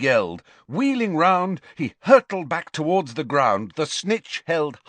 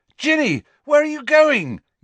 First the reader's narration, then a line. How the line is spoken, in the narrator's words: yelled Harry